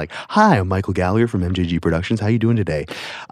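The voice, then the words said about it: Put-on radio announcer voice. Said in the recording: “put on a voice ... I just did a radio voice”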